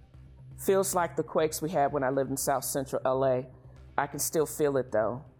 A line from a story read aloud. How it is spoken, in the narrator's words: Penny says